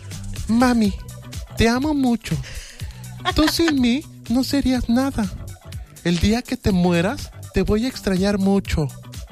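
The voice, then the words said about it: Imitates a child's voice. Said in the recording (Spanish): “10 de 10 a tu gran imitación de niño”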